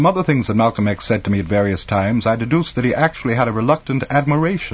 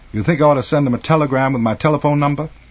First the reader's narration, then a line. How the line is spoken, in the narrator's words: Malcolm X said dryly